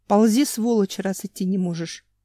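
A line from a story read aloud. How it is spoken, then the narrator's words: Growled. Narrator (Russian): Семен еще и добавил, прорычал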